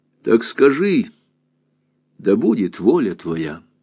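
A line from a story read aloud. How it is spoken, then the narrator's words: Quiet reply. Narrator (Russian): ответил священник тихо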